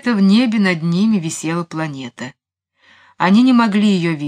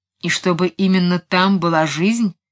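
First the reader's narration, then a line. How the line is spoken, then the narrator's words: Grumbled. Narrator (Russian): проворчал Келлер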